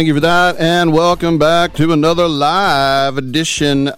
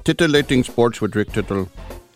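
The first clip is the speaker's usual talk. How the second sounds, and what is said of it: Funny put-on foreign accent. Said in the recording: “This is how I'm going to talk the rest of the show ... accent ... Now I'm just talking in a funny voice.”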